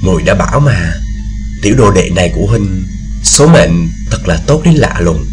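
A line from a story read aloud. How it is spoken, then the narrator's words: Soft smiling murmur. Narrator (Vietnamese): Tôi Như mỉm cười, khe khẽ nói với Điền Bất Dịch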